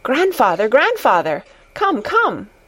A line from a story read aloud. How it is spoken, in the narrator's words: Heidi called out